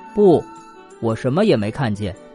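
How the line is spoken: Flat, indifferent. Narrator (Chinese): 他淡淡的说

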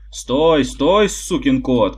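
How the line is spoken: Witch shouting after someone. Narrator (Russian): кричала ведьма мне вдогонку

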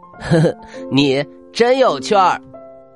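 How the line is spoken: Laughing. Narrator (Chinese): 阿兰笑了起来，说

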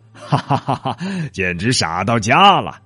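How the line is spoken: Loud laughter. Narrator (Chinese): 国王哈哈大笑道

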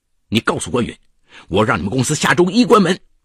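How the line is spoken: Loud shouting. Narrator (Chinese): 他就对一个员工大声嚷嚷

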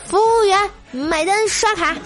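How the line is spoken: Calling out. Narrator (Chinese): 喊道

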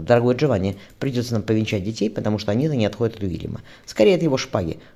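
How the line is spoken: Smirking. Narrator (Russian): хмыкнул Диамальфи

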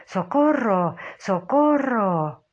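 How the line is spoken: Shouted. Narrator (Spanish): me gritó

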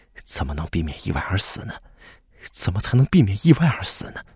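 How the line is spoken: Dazed muttering. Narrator (Chinese): 苏会计正坐在沙发上发呆，口中似乎还在嘟囔

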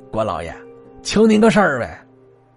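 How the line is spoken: Calling out. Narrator (Chinese): 喊了一声

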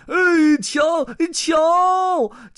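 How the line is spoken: Gurgling, bubbling shout. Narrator (Chinese): 鲸鱼咕噜咕噜的吐着泡泡喊道

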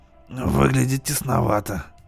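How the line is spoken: Grumbling. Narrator (Russian): проворчал Хайд

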